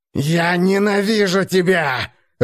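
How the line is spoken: Growling. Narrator (Russian): рычал он

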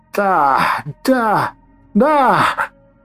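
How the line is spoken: Witch shouting. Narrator (Russian): кричала ведьма

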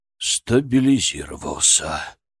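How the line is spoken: Relieved exhale. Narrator (Russian): выдохнул, наконец, Конюхов

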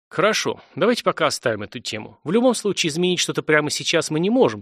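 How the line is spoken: Sighing. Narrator (Russian): вздохнул техножрец

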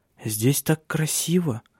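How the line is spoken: Quiet. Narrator (Russian): тихо произнесла

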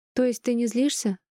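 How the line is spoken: Relieved sigh, young daughter. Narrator (Russian): вздохнула с облегчением дочка

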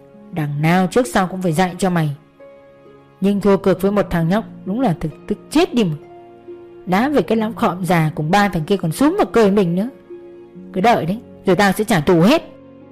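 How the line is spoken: Grumbling mutter. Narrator (Vietnamese): gã lẩm bẩm

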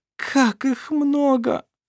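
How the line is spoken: Groaning. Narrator (Russian): простонала Шира

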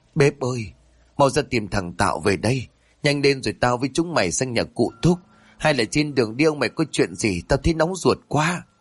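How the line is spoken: Sobbing, trembling, choked. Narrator (Vietnamese): bà bá sụt sùi giọng nói có phần run rẩy, với hơi thở như nghẹt ứ ở cổ họng

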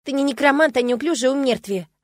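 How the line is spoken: Snapped. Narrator (Russian): огрызнулась

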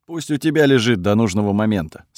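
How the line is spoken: Calm reply. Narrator (Russian): спокойно ответил Кириус

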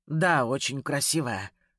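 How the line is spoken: Strained hoarse rasp. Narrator (Russian): судорожно прохрипел

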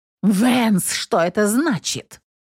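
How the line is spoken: Indignant question. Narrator (Russian): Возмущенным голосом спросила она

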